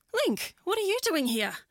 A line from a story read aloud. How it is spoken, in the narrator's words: she exclaimed